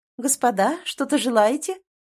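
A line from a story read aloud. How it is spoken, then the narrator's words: Tender sing-song. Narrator (Russian): нежно пропела появившаяся демоница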